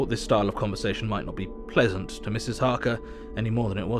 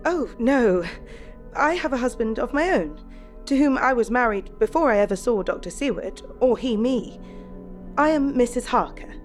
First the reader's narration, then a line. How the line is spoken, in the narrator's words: Harker smiled sweetly as she replied